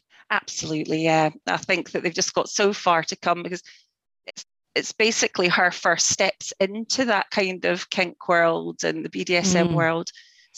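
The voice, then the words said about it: Scottish accent. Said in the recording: “I just love your accent. ... We Scottish lilt.”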